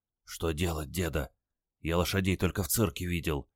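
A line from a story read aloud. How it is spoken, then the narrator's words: Glum whisper. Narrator (Russian): уныло шепнул он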